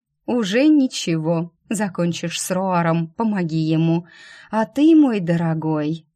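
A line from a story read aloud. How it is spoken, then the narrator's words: Purr in ear. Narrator (Russian): мурлыкнула на ухо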